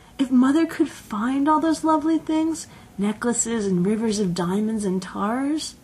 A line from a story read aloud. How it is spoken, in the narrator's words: said Jane dreamily